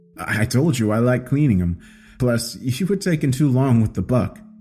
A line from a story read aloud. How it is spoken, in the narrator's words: Frank replied, a hint of laughter in his voice